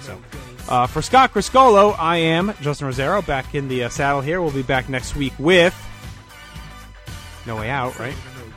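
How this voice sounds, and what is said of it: Worn-out, strained voice. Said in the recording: “My voice is shot.”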